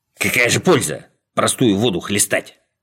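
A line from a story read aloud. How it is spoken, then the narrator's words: Sullen grumble. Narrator (Russian): угрюмо проворчал Скуперфильд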